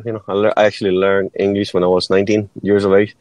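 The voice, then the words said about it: Mexican Spanish accent in English. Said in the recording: “I was born and raised in Mexico ... that's why you guys can tell the accent”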